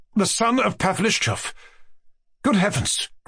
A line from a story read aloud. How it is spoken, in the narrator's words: cried Mushkin, extremely disconcerted